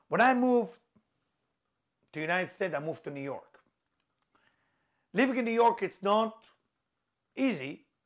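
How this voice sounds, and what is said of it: Israeli accent. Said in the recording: “As you can see my accent, you can hear my accent, I'm Israeli.”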